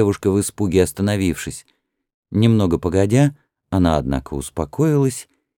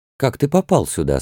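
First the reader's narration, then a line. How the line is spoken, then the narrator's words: Slightly trembling voice. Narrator (Russian): спросила она Рамсеса слегка дрогнувшим голосом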